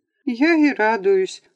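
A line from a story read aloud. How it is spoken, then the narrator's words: Overwhelmed sob. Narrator (Russian): всхлипнула от избытка чувств Наталья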